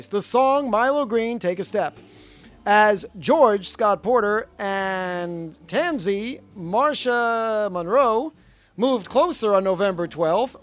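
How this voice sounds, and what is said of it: Announcer voice. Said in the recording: “this I'll do in full announcer voice.”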